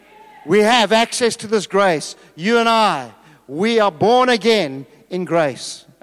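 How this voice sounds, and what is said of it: Shouting preacher voice. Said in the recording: “because I'm shouting.”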